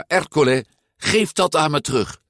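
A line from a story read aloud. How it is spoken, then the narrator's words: Calling out. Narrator (Dutch): riep Giulia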